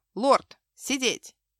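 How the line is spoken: Stern and menacing. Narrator (Russian): строго и грозно

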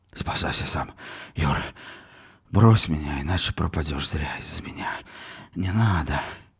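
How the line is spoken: Fading, exhausted voice. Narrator (Russian): Угасающим голосом промолвил обессиленный Волошинов

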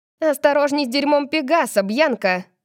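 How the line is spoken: Snapping retort. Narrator (Russian): огрызнулась Кайли

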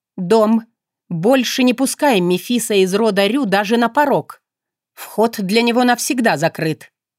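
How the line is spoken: Angry, through gritted teeth. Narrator (Russian): Процедила зло

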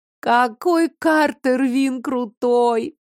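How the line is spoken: Groaning. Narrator (Russian): Зара простонала

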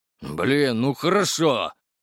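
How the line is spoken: Angry spat words. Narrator (Russian): Зло выплюнул тот

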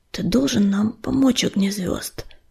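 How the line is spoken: Hoarse wheeze. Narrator (Russian): прохрипел он

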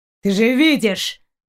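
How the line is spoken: Growled. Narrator (Russian): прорычал Далок

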